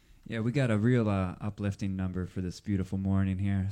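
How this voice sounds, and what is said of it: Sarcastic, facetious tone. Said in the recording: “were you being facetious? ... That was sarcasm.”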